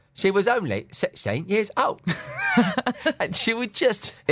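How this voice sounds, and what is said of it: Uncanny imitation of another person's voice. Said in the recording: “His accent ... Like he's in the room. It's uncanny.”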